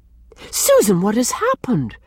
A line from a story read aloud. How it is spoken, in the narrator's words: cried Mrs